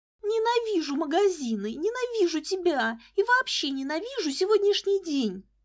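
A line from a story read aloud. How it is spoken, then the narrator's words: Angry shriek. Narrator (Russian): злобно взвизгнула в ответ Лиза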